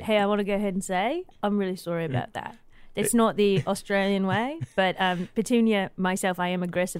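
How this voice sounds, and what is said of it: Australian accent. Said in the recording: “I'm detecting an accent ... So what accent is this? It's quite ... Australian.”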